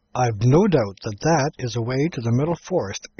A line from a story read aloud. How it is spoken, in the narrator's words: exclaimed Shaggy